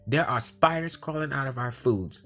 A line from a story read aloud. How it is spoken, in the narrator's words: he put his foot down and shouted